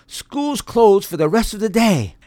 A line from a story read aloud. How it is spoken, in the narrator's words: In the excitement of the moment, the teacher yelled